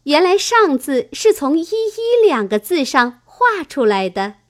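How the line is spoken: Admiring laugh. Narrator (Chinese): 香菱点头叹赏，笑道

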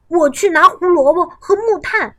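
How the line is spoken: Calling out. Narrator (Chinese): 跳跳叫道

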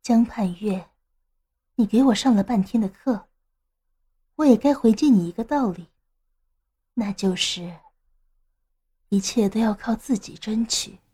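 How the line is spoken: Low murmur in ear. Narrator (Chinese): 唐若萱弯下身子，把嘴凑向他耳边，低声说道

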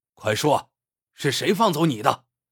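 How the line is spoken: Stern demanding shout. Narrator (Chinese): 贾龙刚厉声喝问

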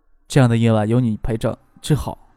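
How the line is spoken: Soft whisper in ear. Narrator (Chinese): 张克 在她耳边轻声的说道

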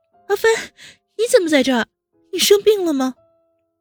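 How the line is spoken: Urgent call. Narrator (Chinese): 温之夏急忙叫

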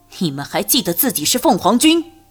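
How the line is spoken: Loud but faltering. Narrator (Chinese): 心里一寒，声音虽大，却已经有点中气不足

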